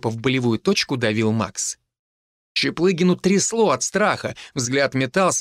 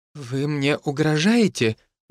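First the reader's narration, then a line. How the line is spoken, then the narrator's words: Trembling voice. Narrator (Russian): дрожащим голосом спросил у Чаплыгина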